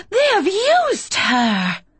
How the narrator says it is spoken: the goddess snarls

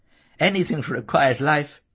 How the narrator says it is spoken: laughed Sis

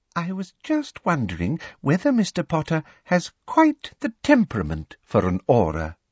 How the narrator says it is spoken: said Professor Umbridge sweetly

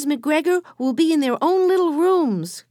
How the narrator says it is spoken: cried Benny

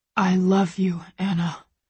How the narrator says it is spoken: he whispers close to my ear, his voice low and harsh

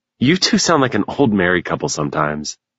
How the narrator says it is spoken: Mason chuckled

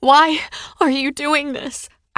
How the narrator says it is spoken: I cried

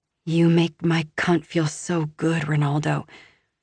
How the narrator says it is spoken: I purr

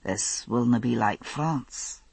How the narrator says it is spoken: he said quietly

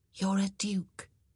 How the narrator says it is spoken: she whispered

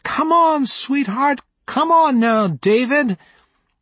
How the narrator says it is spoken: Mommy's face glowing with love as she shouted

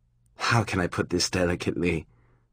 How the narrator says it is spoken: She sighed again

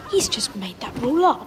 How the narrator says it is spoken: Harry muttered angrily

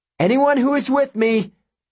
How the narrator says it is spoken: Perseus yelled

